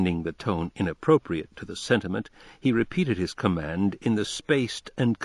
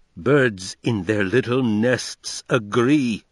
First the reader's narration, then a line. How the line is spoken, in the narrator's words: Franz thundered